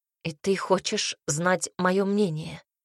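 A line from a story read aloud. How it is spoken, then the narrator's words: Strained, barely forced out. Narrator (Russian): Ирис едва выдавила из себя слова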